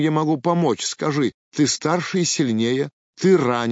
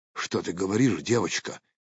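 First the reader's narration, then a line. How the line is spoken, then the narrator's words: Whispered. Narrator (Russian): прошептал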